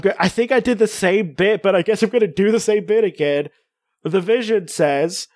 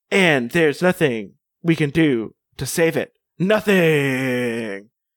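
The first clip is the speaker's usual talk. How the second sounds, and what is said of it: Robotic voice. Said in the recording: “try to do it in a robot voice. I'll make it sound robot-y.”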